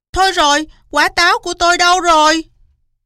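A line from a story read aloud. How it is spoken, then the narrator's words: Loud shout. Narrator (Vietnamese): Cáo hét toáng lên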